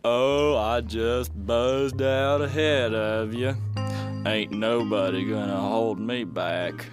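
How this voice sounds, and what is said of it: Slow, drawling speech. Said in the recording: “Why are you talking so slow?”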